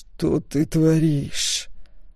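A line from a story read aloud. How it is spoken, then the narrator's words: Hiss through teeth. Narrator (Russian): сквозь зубы прошипел Стоун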